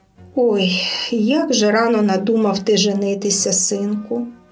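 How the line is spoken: Wife sighing. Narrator (Ukrainian): зітхнула дружина

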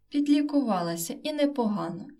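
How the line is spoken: Exclaimed with joyful pathos. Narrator (Ukrainian): із радісним пафосом вигукнула Стевка

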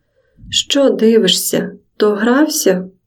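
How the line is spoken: Hysterical exclamation. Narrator (Ukrainian): істерично вигукнула

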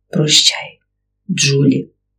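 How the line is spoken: Whisper. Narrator (Ukrainian): Губи його врухнулись і прошепотіли

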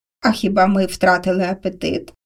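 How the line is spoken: Laughing. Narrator (Ukrainian): засміявся Маслюк

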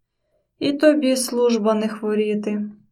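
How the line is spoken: Uncle's grumble. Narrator (Ukrainian): буркнув дядько

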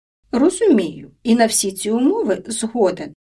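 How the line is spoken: Plain. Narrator (Ukrainian): відповів Маслюк

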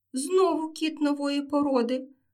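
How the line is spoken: Exclaiming girl kitten. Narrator (Ukrainian): вигукнула киця дівчинка

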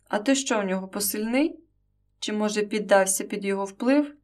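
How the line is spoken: Sharp reply. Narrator (Ukrainian): Дмитро відповів різко

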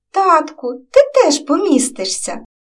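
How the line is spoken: Joyful exclamation. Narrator (Ukrainian): Радо вигукнула до нього Катруся

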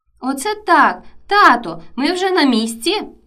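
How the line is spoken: Joyful exclamation. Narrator (Ukrainian): Радісно вигукнув Максимко

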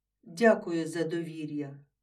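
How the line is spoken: Plain. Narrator (Ukrainian): відповів

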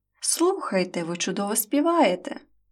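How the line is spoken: Joyful exclamation. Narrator (Ukrainian): Андрій радісно вигукнув

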